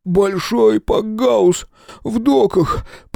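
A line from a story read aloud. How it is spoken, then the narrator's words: Whining. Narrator (Russian): проскулил Толи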